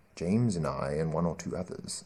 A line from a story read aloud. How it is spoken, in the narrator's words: said Curry, in a somewhat lower voice